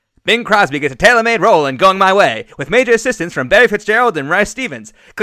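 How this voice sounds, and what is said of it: 1940s newscaster voice. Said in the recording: “can I give it a 1940s newscaster voice?”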